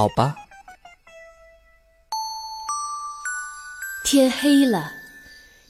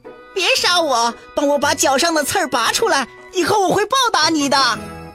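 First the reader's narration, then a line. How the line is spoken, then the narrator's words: Fox crying out. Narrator (Chinese): 狐狸叫道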